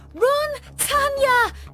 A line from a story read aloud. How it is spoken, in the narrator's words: screamed at her